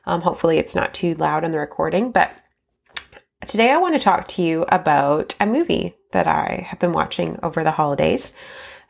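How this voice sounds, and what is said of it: Nasal, scratchy sick voice. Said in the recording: “excuse my voice. I'm a little bit sick right now, so if I'm a bit nasally and scratchy”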